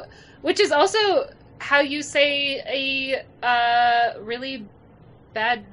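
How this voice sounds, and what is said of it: Usual voice. Nothing is said of it.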